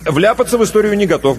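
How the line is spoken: Quick reply. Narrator (Russian): быстро ответил Иванов

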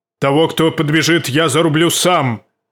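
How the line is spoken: Roared. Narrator (Russian): проревел он

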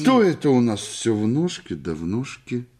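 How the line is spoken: Sudden grumble. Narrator (Russian): вдруг пробурчал Елагин

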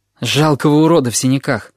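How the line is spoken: Gloomy reply. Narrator (Russian): отозвался я мрачно

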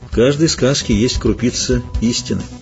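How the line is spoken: Quiet. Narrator (Russian): тихо сказал ведьмак

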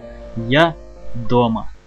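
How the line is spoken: Quiet smiling boy. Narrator (Russian): Мальчик улыбнулся и тихо сказал

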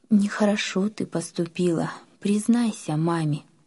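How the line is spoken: Quiet inner voice. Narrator (Russian): совесть тихо говорила ей

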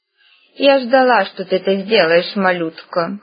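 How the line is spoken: Amused snort. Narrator (Russian): хмыкнула она

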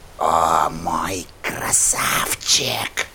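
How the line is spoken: Whisper. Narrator (Russian): прошептала она

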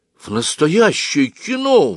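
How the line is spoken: Exclamation. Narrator (Russian): воскликнул Оська

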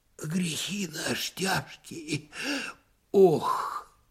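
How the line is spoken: Sighing whisper. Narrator (Russian): Опять кто-то вздохнул и даже как будто прошептал

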